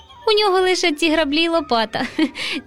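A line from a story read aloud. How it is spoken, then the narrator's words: Laughing boy. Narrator (Ukrainian): засміявся руденький Романко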